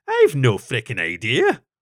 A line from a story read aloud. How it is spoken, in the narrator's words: Rob answered gruffly